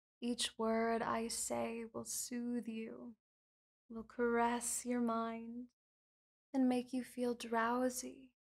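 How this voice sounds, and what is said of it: Soft whispered hypnotic voice. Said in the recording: “My whispers and my hypnotic voice”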